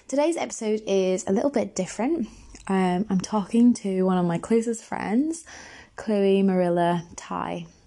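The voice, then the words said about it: Raspy, hoarse voice. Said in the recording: “forgive my voice rasping away”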